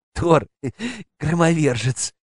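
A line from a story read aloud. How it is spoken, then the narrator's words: Giggling. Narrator (Russian): хихикнул Вася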